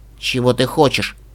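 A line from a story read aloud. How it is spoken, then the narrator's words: Grim. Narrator (Russian): спросила мрачно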